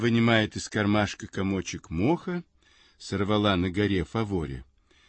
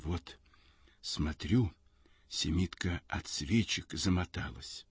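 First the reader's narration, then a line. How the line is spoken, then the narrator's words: Barely audible, trembling. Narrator (Russian): Губы у ней дрожат, и она говорит чуть слышно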